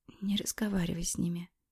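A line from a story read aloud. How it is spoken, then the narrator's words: Whisper. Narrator (Russian): прошептала я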